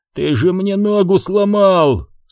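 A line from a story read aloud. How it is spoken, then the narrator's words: Pained moaning. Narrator (Russian): стонал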